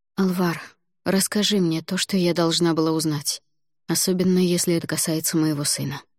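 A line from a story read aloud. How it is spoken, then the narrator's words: Quiet request. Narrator (Russian): негромко попросила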